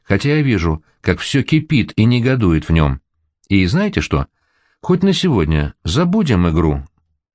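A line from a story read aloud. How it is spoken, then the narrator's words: Calm. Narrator (Russian): спокойно говорит Гамали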